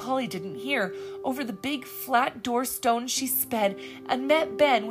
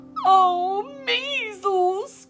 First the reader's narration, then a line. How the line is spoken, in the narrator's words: cried Polly, bursting out afresh